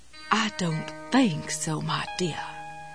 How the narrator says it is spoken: Jessie whispered in her snottiest Elizabeth Taylor cat-on-a-hot-tin-roof voice

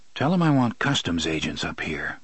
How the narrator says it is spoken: MacDonald said quietly

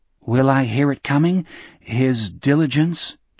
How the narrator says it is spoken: Jack asked timidly

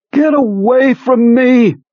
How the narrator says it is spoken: McCarthy screamed back in a thin, distracted voice

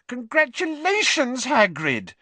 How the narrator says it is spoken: Hermione squealed

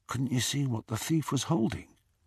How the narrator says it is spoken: Ron whispered

